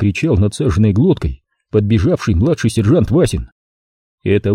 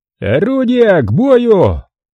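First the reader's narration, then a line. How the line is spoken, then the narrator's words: Shout. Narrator (Russian): закричал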